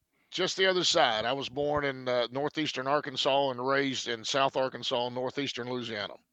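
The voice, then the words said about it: Southern American accent. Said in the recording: “Sounds like a Tennessee accent to me”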